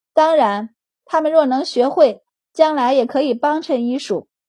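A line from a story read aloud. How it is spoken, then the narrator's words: Said with a laugh. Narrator (Chinese): 周满笑道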